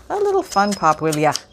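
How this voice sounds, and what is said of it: Bad put-on Irish accent. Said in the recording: “I'm feeling Irish this morning. Oh, that's a terrible accent... No, that's worse. Back away from the Irish accent”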